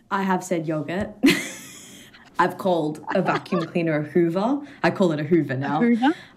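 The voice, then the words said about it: Australian accent. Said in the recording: “She is Australian, but living in London ... your accent is still pretty good”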